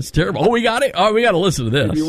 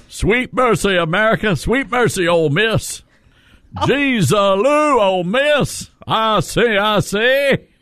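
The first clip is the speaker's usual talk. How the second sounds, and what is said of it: Put-on Southern accent like Baby Dog. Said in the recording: “what your accent is there. Are you trying to be like baby dog? ... baby dog.”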